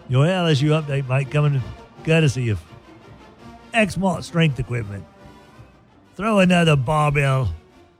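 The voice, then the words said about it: Put-on Australian accent. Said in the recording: “Do the Australian accent again”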